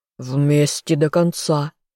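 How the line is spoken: Furious growl. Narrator (Russian): яростно рыкнул

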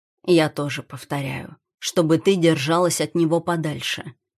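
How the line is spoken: Calm. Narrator (Russian): произносит спокойно

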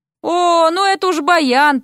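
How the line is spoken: Groaning. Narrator (Russian): простонал Дерек

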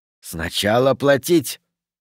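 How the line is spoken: Hissing. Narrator (Russian): прошипел молодунг

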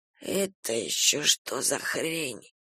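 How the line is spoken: Rasping. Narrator (Russian): прохрипел бандит

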